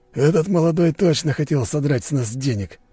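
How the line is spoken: Summing up, exhaling. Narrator (Russian): подытожил Борис и выдохнул

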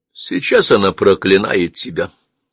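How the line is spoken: Calm, father. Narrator (Russian): спокойно промолвил отец

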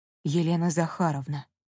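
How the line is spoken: Near whisper. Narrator (Russian): почти шепотом произнес

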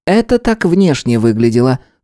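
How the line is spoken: Calm statement. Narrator (Russian): спокойно заявил Харек

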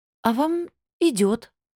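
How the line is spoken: Timid babble. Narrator (Russian): пролепетала я

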